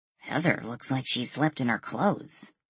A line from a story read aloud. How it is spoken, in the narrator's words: Lily murmured under her breath